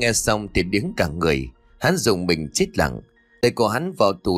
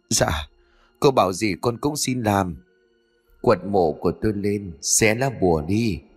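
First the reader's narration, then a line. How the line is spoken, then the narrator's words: Trembling plea. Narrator (Vietnamese): Hắn lúc này run rẩy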